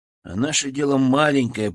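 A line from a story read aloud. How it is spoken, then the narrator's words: Grumble. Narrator (Russian): проворчал я в последний раз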